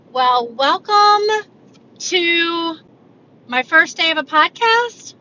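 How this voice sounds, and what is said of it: Rising questioning intonation. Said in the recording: “I put a question mark at the end of that. Did you tell that in my voice?”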